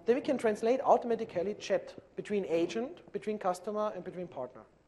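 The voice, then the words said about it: German accent in English. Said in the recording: “you can maybe hear my accent, so I usually talk German”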